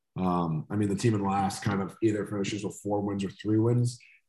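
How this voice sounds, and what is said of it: Hoarse, strained voice. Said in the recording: “Just a lot of talking today for me. Losing my voice.”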